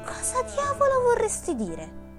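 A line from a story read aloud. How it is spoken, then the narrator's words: Exclaimed. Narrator (Italian): esclamò Hughie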